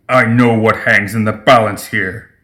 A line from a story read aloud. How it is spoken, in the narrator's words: he growled back at her